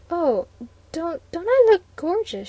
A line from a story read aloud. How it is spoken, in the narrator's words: she stammered